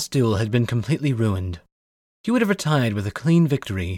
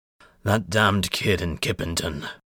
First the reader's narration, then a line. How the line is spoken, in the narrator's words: he grunted to himself